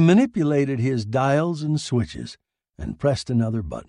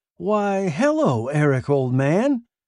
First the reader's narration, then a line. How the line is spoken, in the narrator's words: he cried